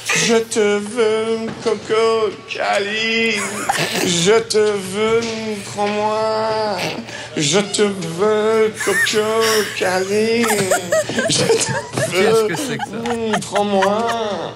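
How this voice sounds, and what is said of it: Singing in put-on English accent, nasal. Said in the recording (French): “Mais pourquoi l'accent anglais, surtout? Pourquoi l'accent anglais? ... Et ça manquait de prestance ... Je trouve que j'ai pincé du nez.”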